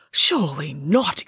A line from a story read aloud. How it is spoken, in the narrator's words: exclaimed